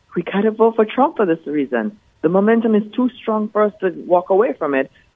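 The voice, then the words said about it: Elegant Jamaican or West Indian accent. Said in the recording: “I detect an elegant, either Jamaican accent or West Indian accent.”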